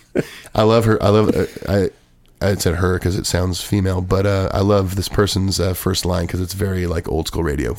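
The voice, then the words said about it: Hoarse voice. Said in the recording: “I'm still hoarse, by the way.”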